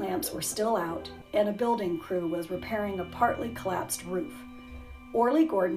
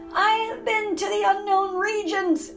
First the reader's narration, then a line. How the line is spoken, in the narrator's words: he cried